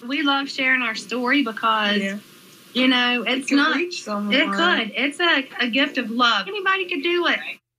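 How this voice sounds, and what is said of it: North Carolina accent. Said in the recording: “I love the accent, North Carolina accent, good.”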